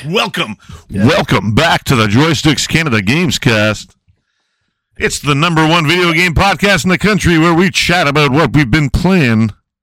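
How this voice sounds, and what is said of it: Radio announcer voice. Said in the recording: “I can do that radio voice.”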